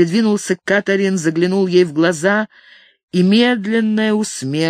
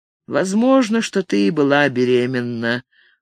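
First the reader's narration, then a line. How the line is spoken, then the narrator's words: Sad remark. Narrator (Russian): грустно заметил Ник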